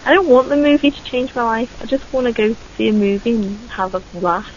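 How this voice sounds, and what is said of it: Regional accent, non-southern vowel. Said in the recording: “A laugh. That's my accent... if I was from the south, it'd be laugh, but it's laugh up here.”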